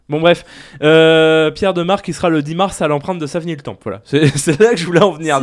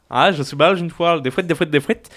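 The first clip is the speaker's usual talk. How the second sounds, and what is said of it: Put-on Belgian French accent. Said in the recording (French): “Je prends l'accent belge, du coup.”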